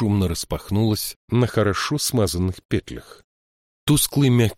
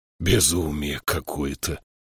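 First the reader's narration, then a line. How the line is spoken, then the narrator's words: Growled. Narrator (Russian): прорычал Кадрах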